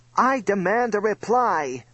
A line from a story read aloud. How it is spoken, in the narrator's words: screamed Slime